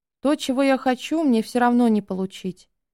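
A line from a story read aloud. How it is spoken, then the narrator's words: Even more dejected. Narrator (Russian): еще более уныло сказал Макс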